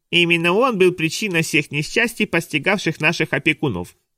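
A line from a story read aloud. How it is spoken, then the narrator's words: Mocking, nasty voice. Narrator (Russian): передразнил противным голосом Нира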